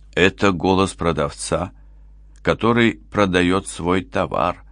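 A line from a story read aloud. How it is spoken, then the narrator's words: Sighing, rote phrase. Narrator (Russian): вздохнул Мевлют, повторяя фразу, которую говорил своим покупателям тысячи раз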